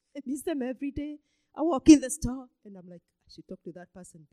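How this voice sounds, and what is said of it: Speaks with a noticeable accent. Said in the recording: “they understand my accent ... Be asking me, where are you from?”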